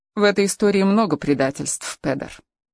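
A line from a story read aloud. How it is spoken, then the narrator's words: Dry reply. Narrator (Russian): сухо ответила Хелена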